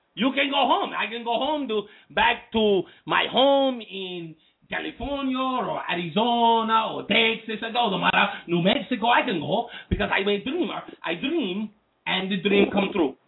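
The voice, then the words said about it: Put-on Mexican accent. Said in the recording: “These Cuban accents. ... I was doing the Mexican accent.”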